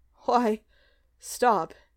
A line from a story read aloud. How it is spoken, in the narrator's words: he panted